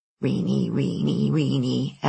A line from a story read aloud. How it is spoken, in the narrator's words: Alice muttered, always bossing, always better